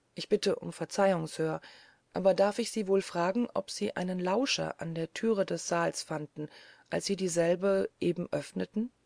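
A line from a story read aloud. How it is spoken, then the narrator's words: Plain question. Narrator (German): fragte ich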